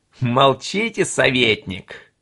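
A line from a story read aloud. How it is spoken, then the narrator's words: Laughing speech. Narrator (Russian): засмеялся Ринке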